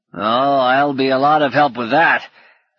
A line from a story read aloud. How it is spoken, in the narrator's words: cackled